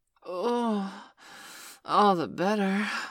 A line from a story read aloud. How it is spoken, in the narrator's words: I gasped as my building orgasm shifted into overdrive